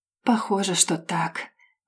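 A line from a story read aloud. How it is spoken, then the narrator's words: Quiet reply. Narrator (Russian): тихо отвечает Марк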